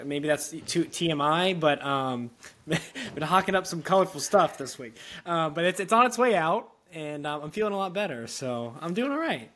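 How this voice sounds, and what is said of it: Slightly raspy, congested voice. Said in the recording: “I'm getting over my little raspy. I've had some seasonal allergies, so I've been very mucusy this week.”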